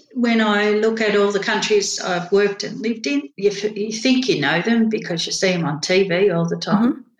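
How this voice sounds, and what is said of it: Australian accent. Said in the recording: “they love my accent, which I actually never managed to lose ... you're from Australia”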